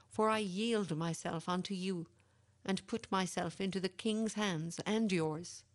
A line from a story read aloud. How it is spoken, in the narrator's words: cried he